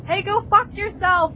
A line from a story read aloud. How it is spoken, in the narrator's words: I shouted